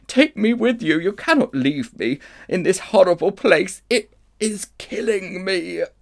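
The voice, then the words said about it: Faint, weak witch voice. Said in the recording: “cried the witch in a faint voice”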